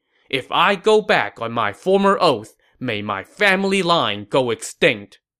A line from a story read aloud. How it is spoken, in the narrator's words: to prove his sincerity, Sun Quan pledging